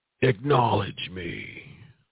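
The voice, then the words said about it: Roman Reigns impression. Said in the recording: “your best Reigns impression”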